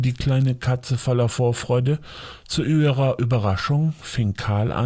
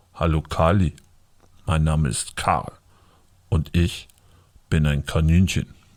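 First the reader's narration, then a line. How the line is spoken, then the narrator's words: Laughing, deep voice. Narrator (German): lachte nur und sagte dann mit einer tiefen Stimme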